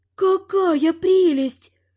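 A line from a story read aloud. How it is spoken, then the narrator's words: Grandmother's admiring sigh. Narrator (Russian): вздохнула бабуля восхищенно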